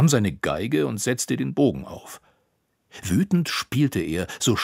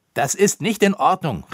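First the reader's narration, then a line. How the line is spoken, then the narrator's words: Called out. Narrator (German): rief er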